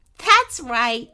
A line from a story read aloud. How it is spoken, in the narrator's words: laughed Princess Candy